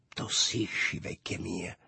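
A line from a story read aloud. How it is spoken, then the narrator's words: Smiling murmur. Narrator (Italian): mormorò Lulù sorridendomi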